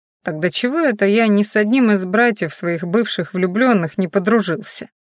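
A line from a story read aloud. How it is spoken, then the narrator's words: Suspicious mutter. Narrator (Russian): мнительно пробормотал Мадиш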